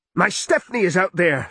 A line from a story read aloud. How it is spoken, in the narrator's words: Smith cried